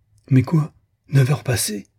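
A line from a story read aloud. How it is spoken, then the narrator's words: Sudden exclamation. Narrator (French): s'écria-t-elle tout à coup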